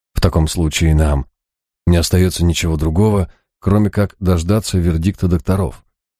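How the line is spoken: Even voice. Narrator (Russian): он говорил ровным голосом

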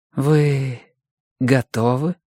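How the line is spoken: Slow question. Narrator (Russian): медленно спросила Флора

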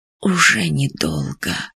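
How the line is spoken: Whisper, old man. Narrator (Russian): прошептал старый Рах

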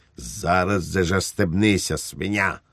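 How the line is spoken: Barked. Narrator (Ukrainian): гаркнув Швейк

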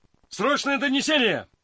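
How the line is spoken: Shouted. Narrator (Russian): крикнул он кучеру

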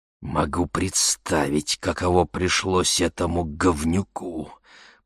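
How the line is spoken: Old man hissing. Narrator (Russian): прошипел дед

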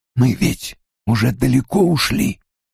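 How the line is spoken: Hoarse whisper. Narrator (Russian): хриплым шепотом спросил он

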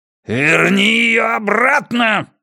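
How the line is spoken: Angry growl. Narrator (Russian): гневно прорычал Хаскель

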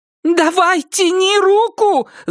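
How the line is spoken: Loud wailing yell. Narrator (Russian): завопил голос матери

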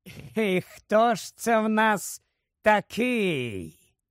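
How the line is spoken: Snake-like hiss. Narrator (Ukrainian): Засичав він, як змія

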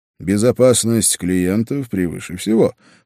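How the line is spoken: Snorting. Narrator (Russian): хмыкнул я

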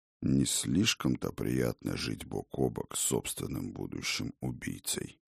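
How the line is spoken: Muttered. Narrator (Russian): буркнул Один

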